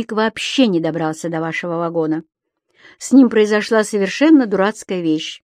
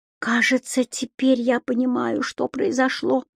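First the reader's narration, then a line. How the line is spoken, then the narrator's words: Mumbling. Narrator (Russian): пробормотала Мелани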